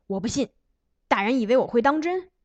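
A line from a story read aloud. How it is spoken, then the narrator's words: Shouted. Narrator (Chinese): 邢德嚷道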